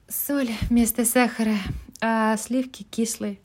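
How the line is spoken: Tragic tone. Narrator (Russian): ответила Мэг трагическим тоном

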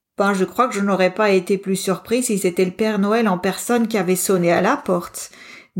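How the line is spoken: Laughing. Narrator (French): dit Pablo en riant

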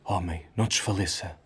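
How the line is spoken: Weeping strained murmur. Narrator (Portuguese): Um preto que sustinha o peso de um varal chorava ao murmurar-lhe

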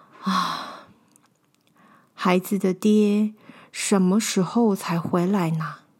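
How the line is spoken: Sighing. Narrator (Chinese): 她 叹了一口气，说

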